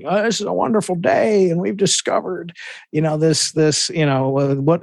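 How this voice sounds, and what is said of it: Bill Clinton impression. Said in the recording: “It's very good, Bill Clinton. ... Impression.”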